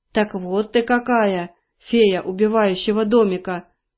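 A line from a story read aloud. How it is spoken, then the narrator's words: Deep bass voice. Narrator (Russian): пробасил он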